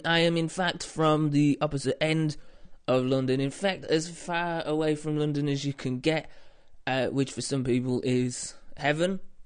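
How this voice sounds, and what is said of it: British accent, not a London one. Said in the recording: “you can tell that I'm, from my voice straight away, that I'm British ... I have a slightly different British accent to others that you might have heard ... if I sound like I come from London, it's because I'm not from London”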